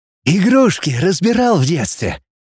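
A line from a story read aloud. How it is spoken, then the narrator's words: Cheerful question. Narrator (Russian): весело спросил директор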